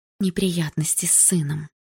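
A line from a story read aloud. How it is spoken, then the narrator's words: Whisper. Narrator (Russian): прошептала она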